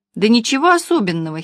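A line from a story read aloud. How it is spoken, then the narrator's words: Giggle. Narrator (Russian): хихикнула Маня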